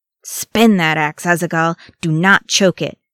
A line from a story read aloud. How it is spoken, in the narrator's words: Nali snapped, his old drillmaster's tone sharp and scolding